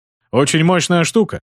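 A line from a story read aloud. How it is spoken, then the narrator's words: Amused grunt. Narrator (Russian): хмыкнул щелкарь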